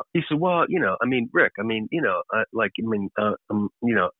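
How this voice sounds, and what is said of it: Stuttering, hesitant imitation of another person. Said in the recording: “you normally don't stutter... Nailed the Kurkjian impression.”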